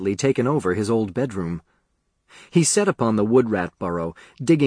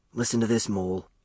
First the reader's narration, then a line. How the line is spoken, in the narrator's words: he whispered